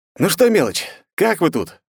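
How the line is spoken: Loud question. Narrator (Russian): громко спросил

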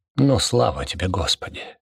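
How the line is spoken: Shaken mumble. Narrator (Russian): пробормотал Дёготь, вздрогнув вместе со стенами

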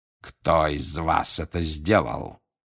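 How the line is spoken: Growling. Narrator (Russian): зарычал он

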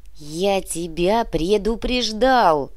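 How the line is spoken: Creaky rasp. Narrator (Russian): проскрипел Феофан

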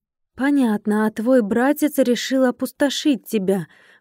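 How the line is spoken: Indignant hiss. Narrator (Russian): возмущенно зашипела

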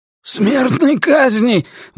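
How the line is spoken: Terrified wail. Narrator (Russian): в ужасе завопил Ллойд

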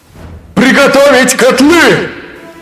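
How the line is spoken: Full-strength shout. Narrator (Russian): выкрикнул что есть мочи Эзраэль

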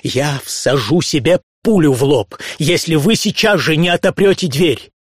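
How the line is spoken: Furious shout. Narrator (Russian): Дикая ярость взыграла во мне, закричал

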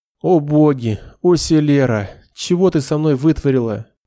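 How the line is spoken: Inner moan. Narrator (Russian): простонал про себя Нед

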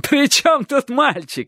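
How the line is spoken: Exclaiming through laughter. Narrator (Russian): сквозь хохот воскликнул рассказчик

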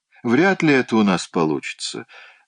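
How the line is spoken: Dry remark. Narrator (Russian): сухо заметил мистер Рикрофт

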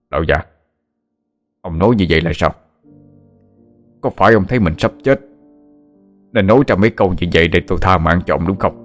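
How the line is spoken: Resentful shout. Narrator (Vietnamese): hậm hực quát

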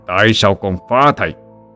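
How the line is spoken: Harsh, gritted voice. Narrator (Vietnamese): Vạn Lĩnh gằn giọng

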